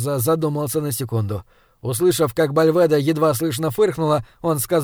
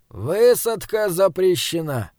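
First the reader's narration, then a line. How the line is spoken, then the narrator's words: Sighing. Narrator (Russian): Хорзо вздохнул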